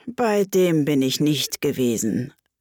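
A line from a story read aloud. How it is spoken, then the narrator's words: Sighing. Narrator (German): sagte die falsche Schildkröte mit einem Seufzer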